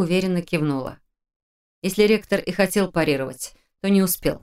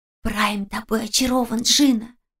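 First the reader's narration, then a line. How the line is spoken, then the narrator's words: Loud whisper. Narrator (Russian): громким шепотом сообщила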